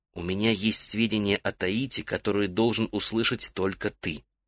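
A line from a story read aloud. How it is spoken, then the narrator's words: Insistent whisper. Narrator (Russian): Мирен настойчиво прошептал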